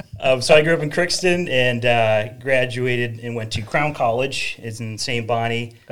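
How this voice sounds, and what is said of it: Slight northern Minnesota accent. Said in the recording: “you might hear a little bit of that northern accent, I suppose.”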